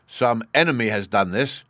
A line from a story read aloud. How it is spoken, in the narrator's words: cried Aegir, as soon as he could speak